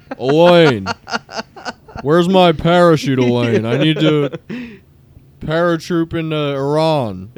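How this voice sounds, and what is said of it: Imitates another person's voice. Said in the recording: “It's a great impression. ... Yeah, it's very good.”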